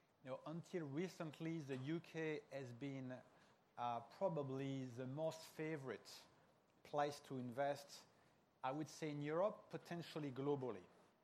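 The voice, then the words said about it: Very strong French accent. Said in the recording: “my very strong accent that I'm not British, I'm French”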